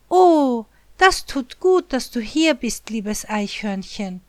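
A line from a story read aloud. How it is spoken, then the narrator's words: Called out. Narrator (German): ruft Wichtelchen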